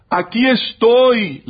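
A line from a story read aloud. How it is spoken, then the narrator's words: Father shouting back. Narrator (Spanish): le gritó a su vez el padre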